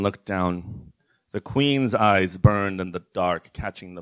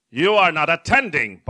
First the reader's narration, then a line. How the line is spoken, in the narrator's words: barked the Queen